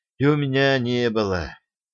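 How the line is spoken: Sad sigh. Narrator (Russian): печально вздохнул Тяпа

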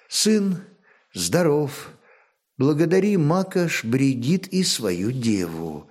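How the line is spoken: Exhausted speech. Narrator (Russian): устало молвила Ефанда, которая вторые сутки не отходила от роженицы

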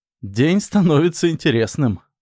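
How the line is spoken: Laughing. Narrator (Russian): засмеялся Макс

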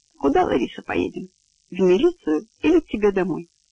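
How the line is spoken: Asked tenderly. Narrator (Russian): Стакоз ласково спросил

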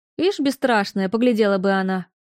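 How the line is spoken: Grumbling cook. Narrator (Russian): проворчала кухарка

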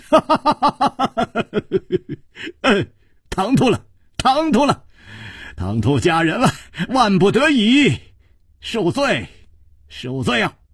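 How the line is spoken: Apologetic laughter. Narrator (Chinese): 楚留香躬身笑道

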